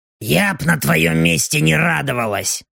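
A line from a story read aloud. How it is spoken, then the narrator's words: Grumbling female demon. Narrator (Russian): проворчала демоница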